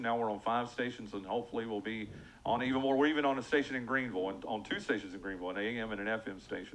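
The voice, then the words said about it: Polished radio announcer voice. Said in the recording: “does he not just have the radio voice?”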